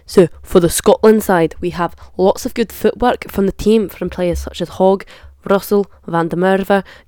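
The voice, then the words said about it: Put-on Scottish accent. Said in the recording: “I can't keep this accent up for any longer, so I retire the Scottish accent”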